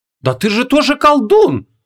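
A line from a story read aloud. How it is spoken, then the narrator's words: Indignant young woman exclaiming. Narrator (Russian): возмущенно воскликнула девушка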